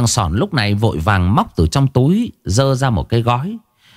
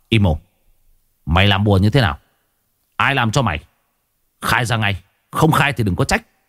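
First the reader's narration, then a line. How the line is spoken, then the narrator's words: Harsh, menacing voice. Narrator (Vietnamese): Tôi gằn giọng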